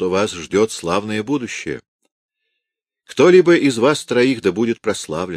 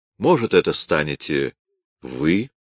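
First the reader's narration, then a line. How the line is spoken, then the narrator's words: Plain. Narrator (Russian): сказал он Рейзеру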